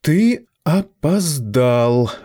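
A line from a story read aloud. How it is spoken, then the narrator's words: Voice from behind pages. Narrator (Russian): раздался голос Лидии из-за медленно колышущихся страниц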